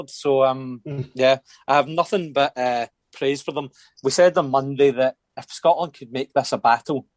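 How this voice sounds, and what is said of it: Hoarse, sore-throated voice. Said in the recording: “you can tell by my voice, I'm a bit sore throated now.”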